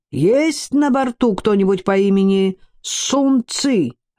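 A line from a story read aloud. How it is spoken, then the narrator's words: Pockmarked man shouting. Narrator (Russian): выкрикнул рябой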